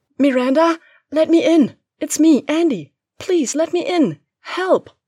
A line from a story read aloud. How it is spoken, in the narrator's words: screaming at the top of her lungs